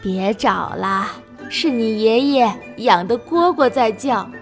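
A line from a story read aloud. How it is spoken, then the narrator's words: Smiling grandmother. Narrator (Chinese): 奶奶笑着说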